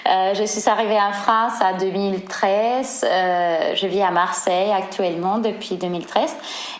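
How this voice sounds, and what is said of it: Spanish accent speaking French. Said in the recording (French): “c'est probablement notable mon accent, je suis espagnole, je viens de Séville”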